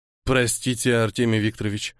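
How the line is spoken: Guilty mutter. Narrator (Russian): пробормотал, чувствуя в этом немного и свою вину

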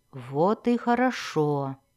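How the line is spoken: Purring. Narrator (Russian): промурлыкала Синафай

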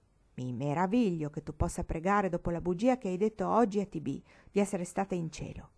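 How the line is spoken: Nasty, tired, furious voice. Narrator (Italian): disse con voce cattiva Gwenny, che era stanca, fuori di sé per la stizza e decisa a litigare

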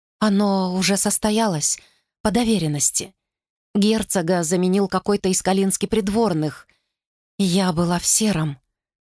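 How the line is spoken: Hollow-voiced statement. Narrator (Russian): пустым голосом сообщила Глориан

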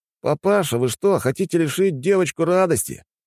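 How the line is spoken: Deliberately loud. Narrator (Russian): сказал он, это нарочито громко, чтобы остальные люди поглядели, что за отец такой непутевый

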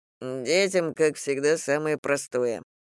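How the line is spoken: Grumble. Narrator (Russian): буркнул Женя

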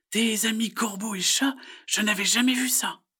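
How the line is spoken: Exclaiming. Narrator (French): s'exclame-t-elle

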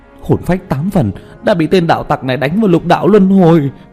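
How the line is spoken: Sudden alarmed cry. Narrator (Vietnamese): chợt kinh hãi kêu lên

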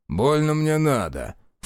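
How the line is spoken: Snorting. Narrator (Russian): фыркнул Степан

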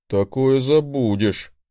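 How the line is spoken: Gloomy grumble. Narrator (Russian): мрачно проворчал он

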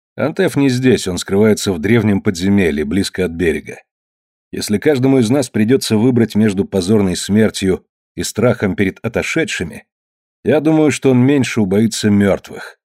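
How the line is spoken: Calm statement. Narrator (Russian): спокойно сказал

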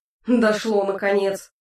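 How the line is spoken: Snorting. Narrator (Russian): хмыкнул Хааск

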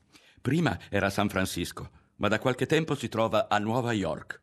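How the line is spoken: Involuntary exclamation. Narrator (Italian): Non poté trattenersi dall'esclamare

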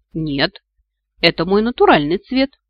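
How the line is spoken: Cheerful reply. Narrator (Russian): весело откликнулся тот

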